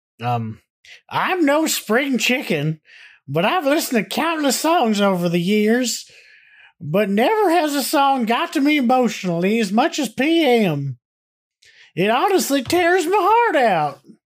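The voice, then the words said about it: Old man voice, prospector-like. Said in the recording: “I'm gonna read this in my old man voice. ... How you feeling about this voice? ... I like prospector”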